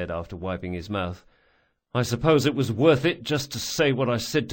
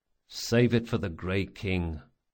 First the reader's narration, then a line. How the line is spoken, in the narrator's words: muttered Locke